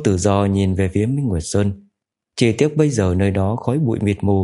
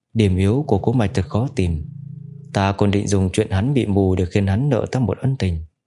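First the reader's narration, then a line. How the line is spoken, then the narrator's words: Quiet thoughtful speech. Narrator (Vietnamese): Trường công chúa nước Sở Tiêu Tự Ẩm sắp mặt khẽ động nói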